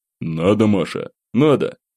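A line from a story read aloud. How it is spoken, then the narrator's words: Sighing, curt. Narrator (Russian): Вздохнув, бросил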